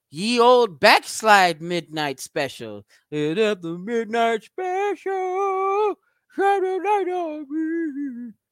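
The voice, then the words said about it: Sung imitation of another person's voice. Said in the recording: “my worst Michael McDonald impersonation ever”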